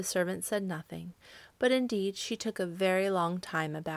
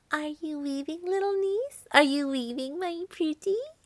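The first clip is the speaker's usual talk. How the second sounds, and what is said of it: Sweet, sugary character voice. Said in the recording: “in her sweetest voice”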